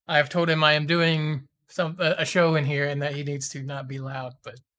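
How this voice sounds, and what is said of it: Slightly hoarse, strained voice. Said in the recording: “I'm also kind of losing my voice a little bit today.”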